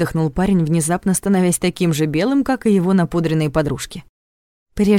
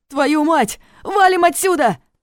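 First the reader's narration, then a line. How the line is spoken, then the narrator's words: Shouting. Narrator (Russian): крикнул парень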